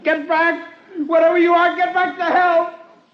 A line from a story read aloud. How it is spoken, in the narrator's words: I lost my head and I screamed at it